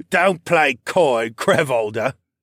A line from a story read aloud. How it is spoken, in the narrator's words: Lerman said, with another one of those bitter-flavored laughs